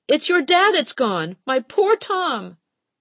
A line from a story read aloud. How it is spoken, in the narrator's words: Jessie Reed screamed